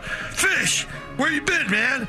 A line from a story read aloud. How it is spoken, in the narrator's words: Pete yelled